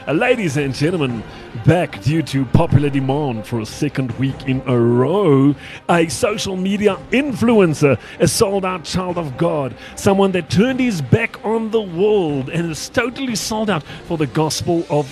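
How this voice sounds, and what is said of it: Announcer-style radio voice. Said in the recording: “Do you want my radio voice?”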